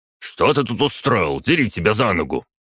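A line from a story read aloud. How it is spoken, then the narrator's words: Roaring. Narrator (Russian): Проревел старшина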